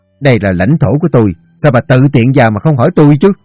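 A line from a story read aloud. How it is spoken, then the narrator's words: Shouting. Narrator (Vietnamese): ông quát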